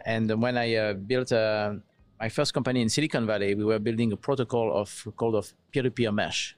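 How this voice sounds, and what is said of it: French accent. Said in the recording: “my accent. You probably recognize that I come from Europe. I'm French originally, south of France.”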